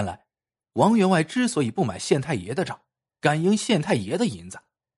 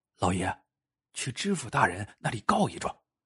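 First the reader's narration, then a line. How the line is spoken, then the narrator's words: Quiet voice. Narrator (Chinese): 管家 小声说道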